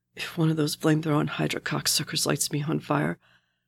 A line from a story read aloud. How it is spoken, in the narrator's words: Bucky had rasped at last